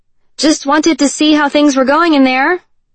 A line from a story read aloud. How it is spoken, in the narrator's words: she said loudly